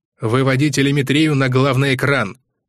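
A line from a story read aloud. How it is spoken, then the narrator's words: Military-style bark. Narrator (Russian): по-армейски рявкнул грач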